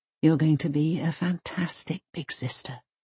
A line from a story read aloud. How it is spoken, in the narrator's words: Mum whispers back